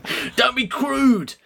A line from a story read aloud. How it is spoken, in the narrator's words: yelled Anne